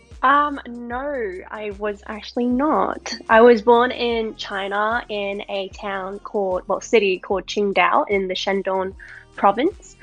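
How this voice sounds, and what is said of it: Australian accent. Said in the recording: “beautiful Australian accent”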